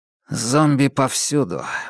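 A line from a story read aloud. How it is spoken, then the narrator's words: Gloomy. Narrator (Russian): мрачно произнес куратор бегунов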